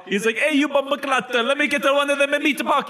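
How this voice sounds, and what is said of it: Bad Jamaican accent drifting Italian. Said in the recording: “That ended up being like Italian at the end. That was a bad accent.”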